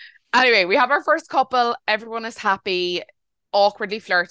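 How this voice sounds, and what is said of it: Usual voice. Nothing is said of it.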